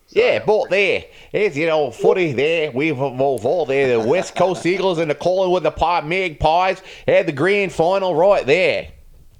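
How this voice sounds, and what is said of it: Australian accent impression. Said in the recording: “you do a fantastic, I guess, impression ... You do a very good accent, as far as I know, because I don't know anybody from Australia”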